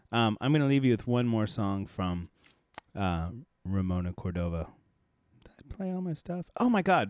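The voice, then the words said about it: Hoarse, failing voice. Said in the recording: “As you can hear, I'm losing my voice.”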